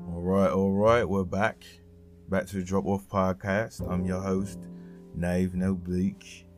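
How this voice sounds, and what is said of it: Poor fake British accent, drifting Australian. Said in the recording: “This is a terrible British accent, but I'm trying my best right now. It's going a little bit into Australian”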